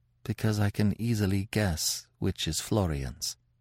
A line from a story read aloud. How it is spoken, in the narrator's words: She looked down bashfully and murmured, in a very low voice